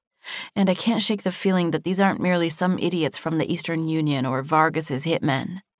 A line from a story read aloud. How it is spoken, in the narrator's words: muttered